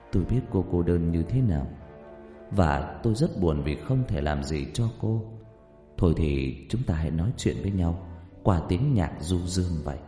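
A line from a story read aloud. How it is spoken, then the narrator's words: Whisper. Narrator (Vietnamese): Rách thì thầm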